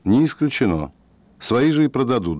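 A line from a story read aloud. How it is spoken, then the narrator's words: Calm, after a pause. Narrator (Russian): Фред подумал и спокойно ответил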